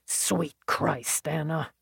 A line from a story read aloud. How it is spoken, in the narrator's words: She heard his muttered